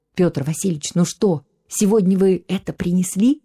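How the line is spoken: Quiet, mysterious voice. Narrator (Russian): говорил он тихо, загадочно, словно их могли подслушать

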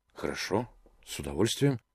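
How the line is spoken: Pleased mumble. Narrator (Russian): бормочу я, очень довольный тем, что я не один

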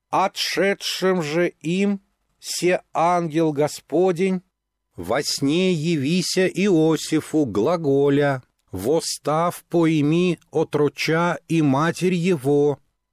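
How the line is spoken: Loud chanting. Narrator (Russian): Саша начала громко нараспев

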